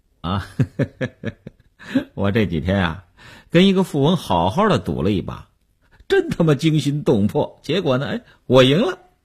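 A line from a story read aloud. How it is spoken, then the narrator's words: Light laugh. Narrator (Chinese): 刘文庆笑笑说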